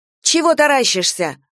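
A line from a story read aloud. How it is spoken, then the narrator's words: Barked. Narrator (Russian): гаркнула Дуня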